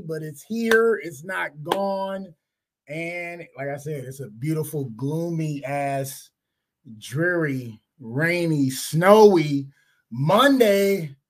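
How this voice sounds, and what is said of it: Slightly raspy voice. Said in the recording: “My voice is a little raspy,”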